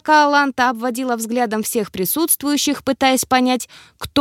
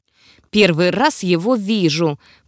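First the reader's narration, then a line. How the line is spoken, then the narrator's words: Disdainful hiss through teeth. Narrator (Russian): процедила Аланта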